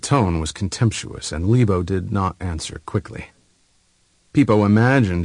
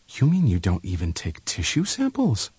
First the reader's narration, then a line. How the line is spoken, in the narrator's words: Libo blushed slightly, but his voice was still calm when he answered